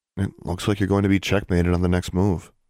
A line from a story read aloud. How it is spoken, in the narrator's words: she said